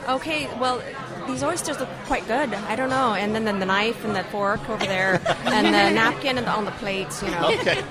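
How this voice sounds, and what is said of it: Put-on Newfoundland accent. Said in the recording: “how good your Newfoundland accent is, because that's what you're going to have to break out for us”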